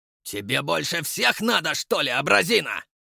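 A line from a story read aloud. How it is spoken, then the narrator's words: Bellowed. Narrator (Russian): заорал уже другой идиот из этой троицы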